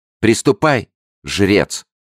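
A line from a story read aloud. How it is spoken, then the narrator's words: Queen's sharp command. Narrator (Russian): резко повелела королева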